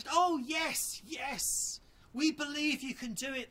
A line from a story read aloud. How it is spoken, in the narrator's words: cried